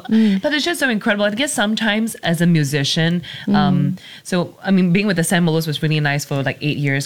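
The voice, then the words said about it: Emotional, choked-up voice. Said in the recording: “I'm just getting a bit emotional”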